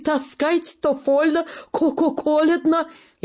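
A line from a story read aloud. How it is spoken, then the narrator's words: Hoarse, accented German man. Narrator (Russian): немец хрипит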